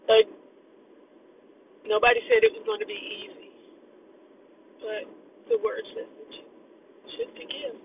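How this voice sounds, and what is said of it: Teary, emotional voice. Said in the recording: “a little teary-eyed”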